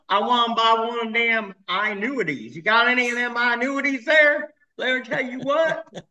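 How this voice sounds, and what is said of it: Fake Texas accent. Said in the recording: “your fake Texas accent”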